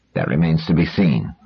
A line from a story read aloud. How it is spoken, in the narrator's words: muttered Selden